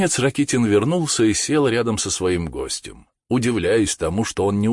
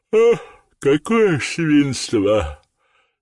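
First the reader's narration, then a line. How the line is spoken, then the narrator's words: Sleepy voice. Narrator (Russian): сказал сонным голосом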